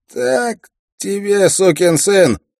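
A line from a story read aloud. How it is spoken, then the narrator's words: Shout. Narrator (Russian): прокричал Стен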